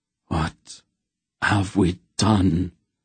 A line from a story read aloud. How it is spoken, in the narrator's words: the Baron groaned, his face anguished